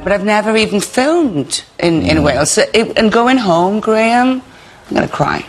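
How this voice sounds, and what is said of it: Welsh Swansea accent. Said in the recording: “She's using her Swansea accent”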